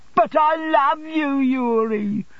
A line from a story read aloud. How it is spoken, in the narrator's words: cried Mrs